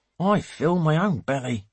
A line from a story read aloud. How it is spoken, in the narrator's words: mutters the driver